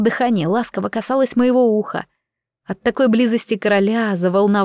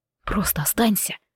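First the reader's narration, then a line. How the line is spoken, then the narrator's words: Muffled whisper. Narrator (Russian): прошептал, зарывшись лицом в мои волосы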